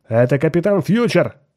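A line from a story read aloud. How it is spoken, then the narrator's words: Shout. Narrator (Russian): крикнул кто-то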